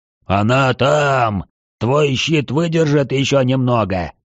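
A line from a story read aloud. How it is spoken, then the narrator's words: Hoarse question. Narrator (Russian): хрипло спросил Свечкин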